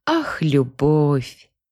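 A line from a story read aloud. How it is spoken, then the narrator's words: Dreamy drawl. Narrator (Russian): мечтательно протянула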